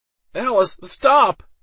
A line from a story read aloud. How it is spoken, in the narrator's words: Waldo cried out